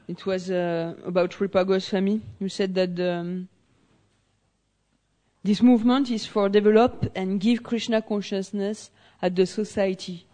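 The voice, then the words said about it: Strong French accent. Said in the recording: “It's the accent. ... It's very French.”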